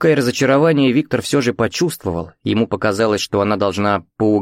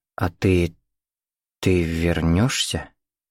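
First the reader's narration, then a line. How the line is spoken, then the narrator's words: Slow speech. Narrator (Russian): медленно проговорила Катя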